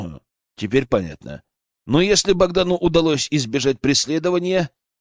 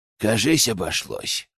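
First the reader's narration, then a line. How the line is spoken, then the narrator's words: Relieved exhale. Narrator (Russian): выдохнул наконец Генка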